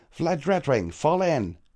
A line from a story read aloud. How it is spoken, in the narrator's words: Tailwind shouted